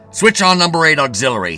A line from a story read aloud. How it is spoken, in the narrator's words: he shouted